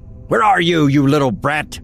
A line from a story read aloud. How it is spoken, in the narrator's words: Harold shouts